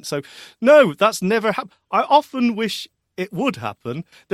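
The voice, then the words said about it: Whiny voice with a funny accent. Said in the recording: “it is a terrible, whiny voice with a funny accent.”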